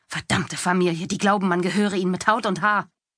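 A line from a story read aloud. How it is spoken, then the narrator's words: Growling. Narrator (German): knurrte sie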